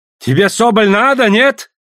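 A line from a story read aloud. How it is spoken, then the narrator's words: Sudden shout. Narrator (Russian): вдруг закричал Савоська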